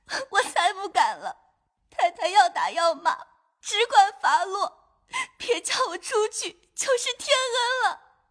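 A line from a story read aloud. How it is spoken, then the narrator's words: Crying. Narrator (Chinese): 金钏儿 哭道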